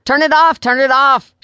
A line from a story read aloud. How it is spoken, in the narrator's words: shouted another church-going lady